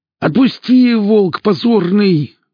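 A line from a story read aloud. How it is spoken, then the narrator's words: Howling in pain. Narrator (Russian): взвыл двойник, которому заломили руку к небу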